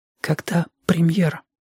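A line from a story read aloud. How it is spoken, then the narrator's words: Whispered question. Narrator (Russian): спросила Павла шепотом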